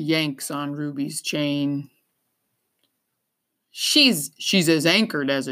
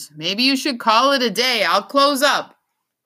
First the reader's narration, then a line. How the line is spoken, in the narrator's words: he yells